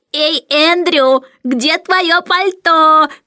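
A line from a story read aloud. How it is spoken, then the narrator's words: Shouting, mimicking shrill voice. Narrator (Russian): кричал Майкл, подражая высокому визгливому голосу мисс Ларк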